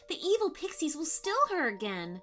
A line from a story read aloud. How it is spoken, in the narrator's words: cried Ordo the little pixie